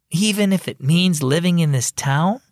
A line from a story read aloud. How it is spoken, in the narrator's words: Kate said with a sigh